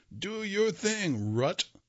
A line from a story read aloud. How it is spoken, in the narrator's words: yelled